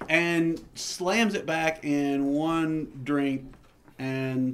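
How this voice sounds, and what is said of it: Usual voice. Nothing is said of it.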